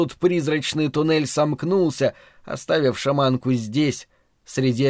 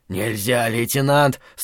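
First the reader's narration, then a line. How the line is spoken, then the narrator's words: Strained wheezing. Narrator (Russian): с трудом удерживая меня, сипел Хамар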